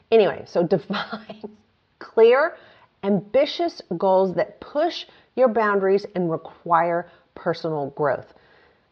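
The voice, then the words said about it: Speaks with an accent. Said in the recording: “It's so annoying when my accent comes out.”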